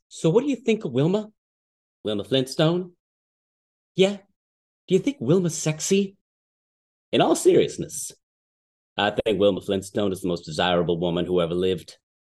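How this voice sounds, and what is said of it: Imitates a TV character's voice. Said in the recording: “give us your best impression ... if they've ever watched Red Dwarf”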